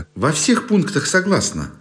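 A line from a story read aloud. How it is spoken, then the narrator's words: Hasty cheerful reply. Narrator (Russian): поспешно и весело отвечал тот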